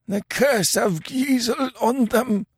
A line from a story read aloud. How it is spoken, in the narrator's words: gasped Kemsa